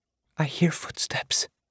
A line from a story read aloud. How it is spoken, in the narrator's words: Eris whispered